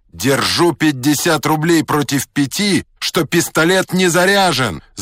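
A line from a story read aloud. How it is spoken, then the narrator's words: Shouting. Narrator (Russian): закричал третий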